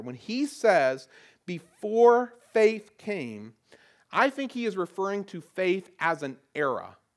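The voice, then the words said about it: Southern accent. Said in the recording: “my old southern accent comes out a little bit too much on a couple words”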